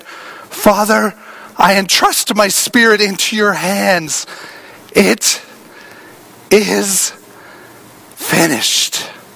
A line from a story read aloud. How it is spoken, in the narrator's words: he shouted